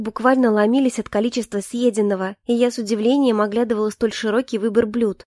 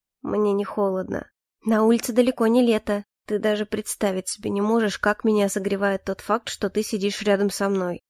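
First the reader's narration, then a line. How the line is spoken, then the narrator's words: Quiet. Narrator (Russian): негромко произнес Калипсо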